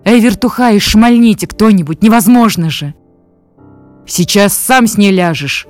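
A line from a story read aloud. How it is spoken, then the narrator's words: Barking guard. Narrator (Russian): рявкнул конвойный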